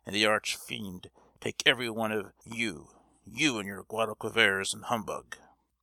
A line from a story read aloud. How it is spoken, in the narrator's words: he growled, half aloud